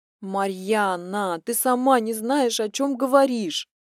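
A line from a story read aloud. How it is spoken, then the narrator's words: Moaning. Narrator (Russian): простонала Алинка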